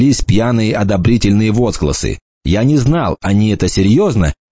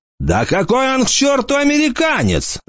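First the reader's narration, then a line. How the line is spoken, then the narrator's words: Fat man yelling. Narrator (Russian): заорал какой-то толстяк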